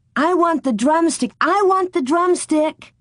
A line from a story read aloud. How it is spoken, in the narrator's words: Mary shouted